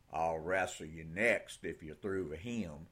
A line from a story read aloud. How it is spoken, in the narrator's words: he said, in a rich West Texas drawl